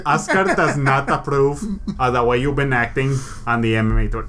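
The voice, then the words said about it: Oscar De La Hoya impression accent. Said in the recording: “your gay Oscar De La Hoya thing ... when I do the accent.”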